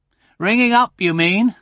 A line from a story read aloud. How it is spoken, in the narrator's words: said her father